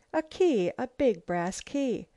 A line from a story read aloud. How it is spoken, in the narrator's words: she exclaimed